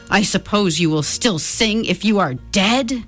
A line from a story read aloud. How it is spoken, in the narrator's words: the mayor thundered